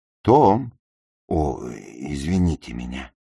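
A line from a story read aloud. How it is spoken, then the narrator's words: Stammering. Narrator (Russian): Запинаясь, сказал он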